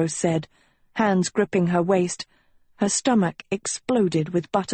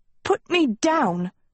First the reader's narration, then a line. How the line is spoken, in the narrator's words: she sputtered